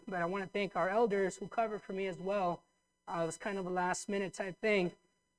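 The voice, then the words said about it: Slightly strained voice after illness. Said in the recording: “You may still hear that my voice is not 100%”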